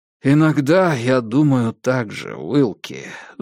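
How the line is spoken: Sighing. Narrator (Russian): вздохнул Диккенс

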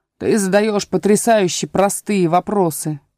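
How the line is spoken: Booming voice. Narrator (Russian): прогремел Пустик-Дутик

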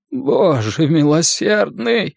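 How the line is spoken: Frightened moan. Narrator (Russian): простонал медик, когда я направил бластер ему в лицо

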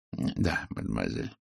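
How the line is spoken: Soft reply. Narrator (Russian): мягко ответил Пуаро

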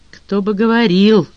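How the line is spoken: Grumbling mutter. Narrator (Russian): буркнул Джон Том

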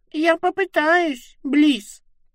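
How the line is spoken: Thin squeak. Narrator (Russian): тоненько пропищала фалом

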